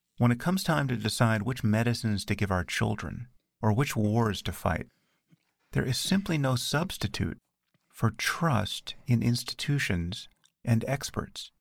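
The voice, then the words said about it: Soothing calm voice. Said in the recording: “in that nice soothing voice”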